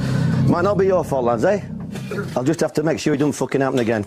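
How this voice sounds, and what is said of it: Yorkshire accent. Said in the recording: “Warnock, is this a Yorkshire accent ... I think so.”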